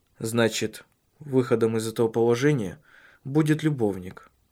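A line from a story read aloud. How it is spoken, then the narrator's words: Calm. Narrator (Russian): спокойно произнес он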